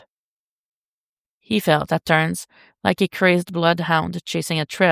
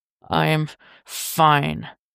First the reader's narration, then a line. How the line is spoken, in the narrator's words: Bruce protested through gritted teeth